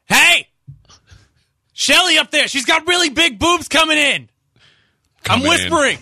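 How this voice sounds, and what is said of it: Loud yelling meant as whisper. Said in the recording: “why are you yelling? I'm not yelling, this is whispering.”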